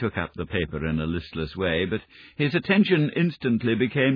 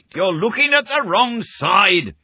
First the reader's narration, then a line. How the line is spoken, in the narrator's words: he shrieked